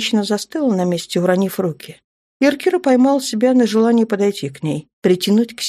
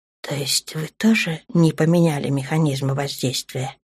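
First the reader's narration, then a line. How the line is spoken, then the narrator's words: Whisper. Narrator (Russian): прошептала Аврора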